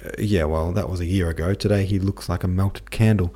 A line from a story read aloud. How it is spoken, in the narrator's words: said Anna Mikhailovna